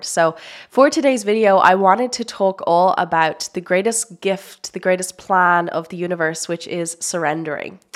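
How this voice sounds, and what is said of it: Sick-sounding voice. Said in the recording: “I have been sick for, oh my God, you can probably hear it in my voice.”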